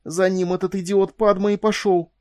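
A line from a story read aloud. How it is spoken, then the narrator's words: Forced out. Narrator (Russian): выдавила Элис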